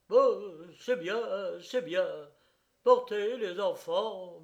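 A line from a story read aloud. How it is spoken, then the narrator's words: Stammering. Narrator (French): balbutia-t-il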